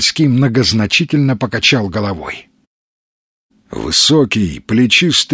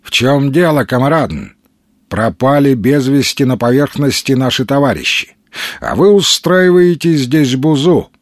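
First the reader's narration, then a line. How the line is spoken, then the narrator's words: Flat, dispassionate voice. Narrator (Russian): бесстрастным ровным голосом заговорил он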